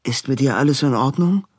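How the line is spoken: Plain. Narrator (German): fragte Robin

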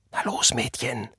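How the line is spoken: Whispering. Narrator (German): flüsterte er

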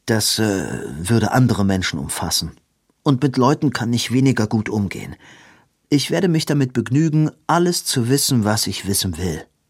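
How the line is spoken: Calm. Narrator (German): sagte Edwin ruhig

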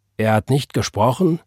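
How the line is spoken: Plain. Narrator (German): sagte Gabriel

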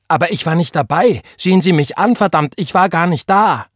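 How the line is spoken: Calling out. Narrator (German): rief Richard

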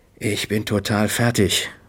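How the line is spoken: Murmur. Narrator (German): murmelte

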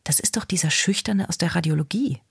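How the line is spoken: Whisper. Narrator (German): flüsterte Molly

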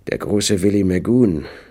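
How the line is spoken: Hoarse. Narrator (German): sagte er heiser

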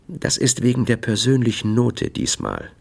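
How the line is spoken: Gentle. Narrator (German): sagte er sanft

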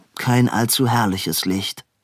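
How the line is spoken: Dry. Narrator (German): sagte Edwin trocken

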